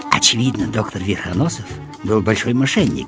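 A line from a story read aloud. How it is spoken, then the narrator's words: Schoolboy's whisper. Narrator (Russian): прошептал Петенька, гимназист 4-го класса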